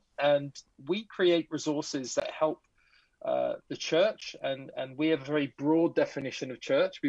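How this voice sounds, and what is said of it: English accent. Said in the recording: “I'm originally from England, so I have a strange accent, but it's not a Canadian accent.”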